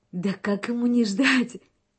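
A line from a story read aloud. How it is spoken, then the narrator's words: Laughing young woman. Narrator (Russian): смеялась девушка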